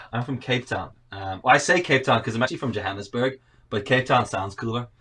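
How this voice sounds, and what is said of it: Mixed South African, Northern Irish accent. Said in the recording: “I've got this really messed up accent that people always say, are you Canadian or Australian first? ... South African.”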